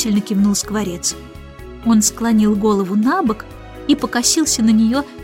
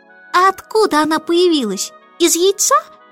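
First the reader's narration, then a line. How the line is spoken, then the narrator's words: Chick's sudden squeak. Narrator (Russian): пропищал вдруг птенец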